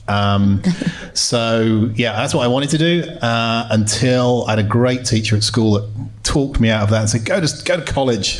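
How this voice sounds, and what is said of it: South London English accent. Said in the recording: “Growing up in South London, in case you didn't spot my accent, it's not from around here.”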